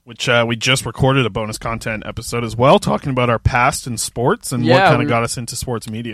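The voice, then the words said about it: Worn-out, fading voice. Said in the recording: “my voice is dying”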